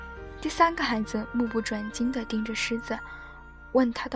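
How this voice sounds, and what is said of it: Usual voice. Nothing is said of it.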